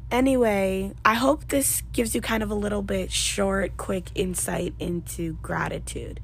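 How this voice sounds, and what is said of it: Strained, failing voice. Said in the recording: “I feel like I'm losing my voice. I think I am. ... I sound horrible”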